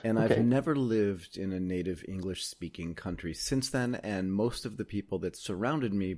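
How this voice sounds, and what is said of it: American English accent. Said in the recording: “my accent has essentially stayed constant... I may have a tinge of Aussie or UK in me, but I don't”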